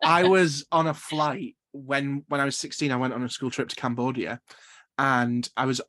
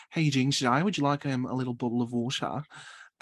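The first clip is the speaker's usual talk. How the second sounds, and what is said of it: Put-on Australian accent. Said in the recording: “going into like Australian ... I mimic people's accent, which is terrible.”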